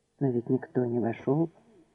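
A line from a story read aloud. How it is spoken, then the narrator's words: Quiet. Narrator (Russian): Тихо ответил он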